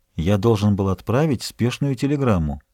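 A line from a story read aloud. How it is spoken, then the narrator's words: Quiet reply. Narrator (Russian): Он тихо ответил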